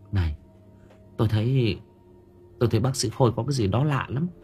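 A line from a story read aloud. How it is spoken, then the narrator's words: Whisper. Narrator (Vietnamese): Dung thì thầm vào tai của Hân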